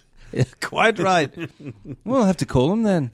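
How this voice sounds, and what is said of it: Put-on London English accent. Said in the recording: “I'm starting to affect a London accent for some reason instead of Liverpool.”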